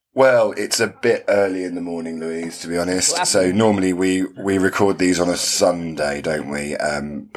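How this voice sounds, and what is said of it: Very deep morning voice. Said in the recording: “I feel like I've got a very deep voice because I might have had a glass of wine last night.”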